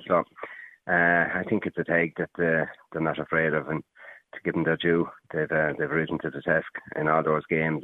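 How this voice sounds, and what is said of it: Faint remnants of Limerick accent. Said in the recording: “do I detect a Limerick accent there? ... You do indeed, yeah. The remnants of one.”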